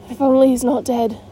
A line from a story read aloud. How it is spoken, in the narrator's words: breathed Omri